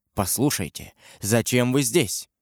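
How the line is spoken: Wary whisper. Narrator (Russian): он шепотом, как будто у него еще остались опасения, … сказал

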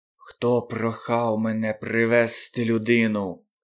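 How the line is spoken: Hissed. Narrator (Ukrainian): прошипів

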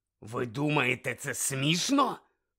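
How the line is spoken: Male growl. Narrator (Ukrainian): прогарчав він

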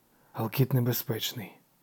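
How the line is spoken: Devil's toneless whisper. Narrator (Ukrainian): безбарно прошепотів лукавий

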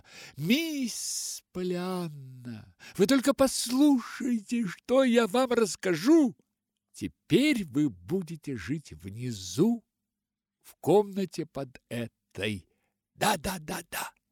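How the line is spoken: Joyful exclamation. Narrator (Russian): радостно воскликнула

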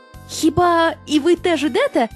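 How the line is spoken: Surprised exclamation, several voices. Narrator (Ukrainian): здивовано вигукнули його друзі

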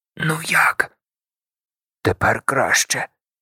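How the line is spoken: Hoarse whisper. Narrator (Ukrainian): Так само пошепки і з хрипотою в голосі відповів Сем

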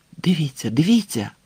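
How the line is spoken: Excited whisper. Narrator (Ukrainian): збуджено прошепотів він

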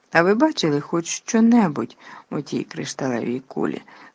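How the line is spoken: Sad question. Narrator (Ukrainian): сумно запитав він

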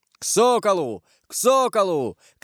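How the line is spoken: Shouting. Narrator (Russian): крикнул Карл

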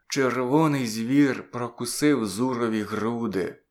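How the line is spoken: Weak groan. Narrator (Ukrainian): відчуваючи свою неміч, простогнав

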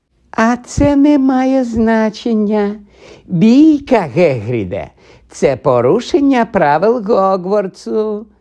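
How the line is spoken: Sugary-sweet voice. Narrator (Ukrainian): сказав солоденьким голосом Снейп

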